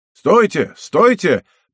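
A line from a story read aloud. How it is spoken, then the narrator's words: Shout from the crowd. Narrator (Russian): прокричал чей-то голос из середины толпы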